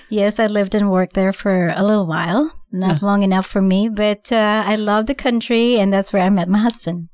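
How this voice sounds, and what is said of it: Slight foreign accent. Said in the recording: “you have a little accent”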